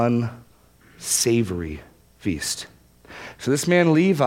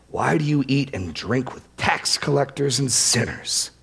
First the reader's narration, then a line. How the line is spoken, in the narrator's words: grumbled at his disciples, saying